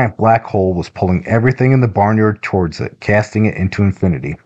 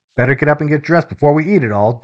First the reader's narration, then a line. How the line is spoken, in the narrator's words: Dylan shouted